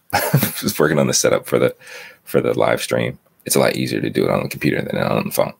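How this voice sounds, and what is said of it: Groggy voice. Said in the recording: “my voice is kind of groggy I've been up for a little bit”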